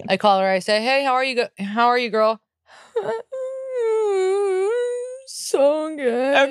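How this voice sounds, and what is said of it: Imitates another person's sad voice. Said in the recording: “That was a good impression of her sad voice.”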